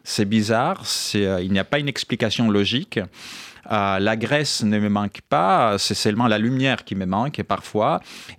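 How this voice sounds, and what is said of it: Speaks French with a foreign accent. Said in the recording (French): “à cause ou grâce à mon accent, et, je suis toujours un étranger”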